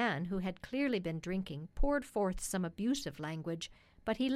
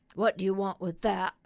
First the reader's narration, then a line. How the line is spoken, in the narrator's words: growled the carter